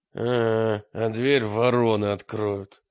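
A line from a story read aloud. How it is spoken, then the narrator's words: Through gritted teeth. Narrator (Russian): добавил Мрак сквозь зубы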